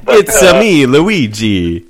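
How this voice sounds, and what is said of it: Bad fake Italian accent. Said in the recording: “That's a horrible accent. ... I don't know why you're an Italian pizza chef now.”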